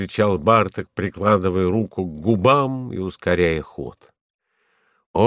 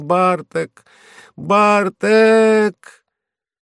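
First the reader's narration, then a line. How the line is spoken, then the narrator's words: Joyful shout. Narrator (Russian): Баба радостно закричала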